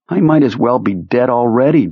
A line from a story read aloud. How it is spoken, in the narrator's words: thought, looking disconsolately